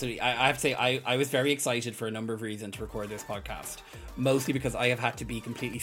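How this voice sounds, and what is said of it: Usual voice. Nothing is said of it.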